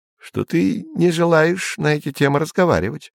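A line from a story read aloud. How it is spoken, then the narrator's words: Plain. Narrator (Russian): сказал Изя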